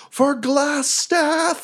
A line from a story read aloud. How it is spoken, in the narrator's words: he yells